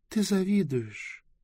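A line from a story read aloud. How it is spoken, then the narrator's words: Thoughtful. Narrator (Russian): задумчиво Близ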